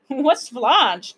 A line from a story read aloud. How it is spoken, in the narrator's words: Tom chuckled